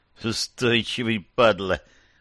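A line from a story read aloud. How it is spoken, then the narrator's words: Tense angry hiss. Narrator (Russian): он прошипел, играя желваками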